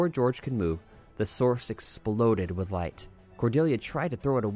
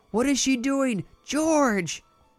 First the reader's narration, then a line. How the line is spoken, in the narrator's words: She kept screaming, but her voice faded